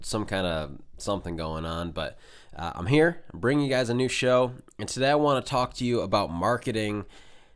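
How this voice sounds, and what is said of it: Nasal, congested voice. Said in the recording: “I sound a little nasally today. I've got a little cold,”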